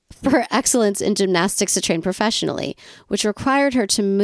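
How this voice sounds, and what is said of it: Usual voice. Nothing is said of it.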